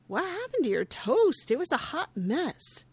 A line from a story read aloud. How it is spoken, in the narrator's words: greets him happily before asking